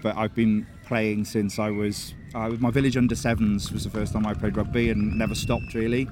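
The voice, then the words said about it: South Wales accent. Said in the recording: “I'm from South Wales. I don't know if you can tell by the accent”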